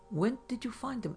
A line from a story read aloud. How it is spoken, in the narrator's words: asked Lowe